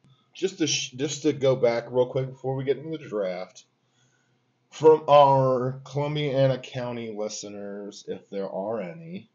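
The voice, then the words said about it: Slightly slurred, tipsy speech. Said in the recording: “I'm slurring a little bit. We had a couple different IPAs.”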